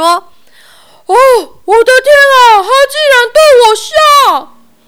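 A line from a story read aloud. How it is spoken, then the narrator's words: Wailing, sobbing. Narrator (Chinese): 国王实在受不了了，放声痛哭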